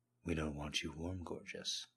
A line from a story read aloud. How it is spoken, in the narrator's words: James murmured enticingly